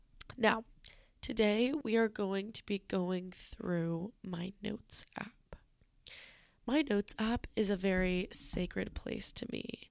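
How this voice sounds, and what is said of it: Sick, rough-sounding voice. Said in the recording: “I don't feel very good right now. I'm sorry if my voice sounds really disgusting.”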